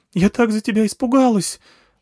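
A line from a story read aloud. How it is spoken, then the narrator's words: Tearful exclamation, nurse. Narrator (Russian): воскликнула моя медсестра со слезами в голосе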